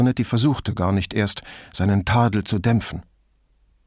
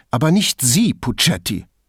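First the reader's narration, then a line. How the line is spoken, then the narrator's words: Sharp reply. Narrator (German): erwiderte Brunetti scharf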